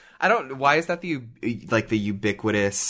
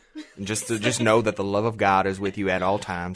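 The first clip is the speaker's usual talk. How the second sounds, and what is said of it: Southern preacher voice. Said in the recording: “preacher voice? ... The southern accent?”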